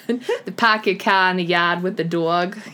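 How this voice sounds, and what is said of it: Put-on Boston accent. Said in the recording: “You're very good at saying that. ... I love that accent so much.”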